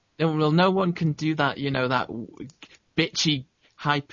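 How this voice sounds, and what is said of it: Usual voice. Nothing is said of it.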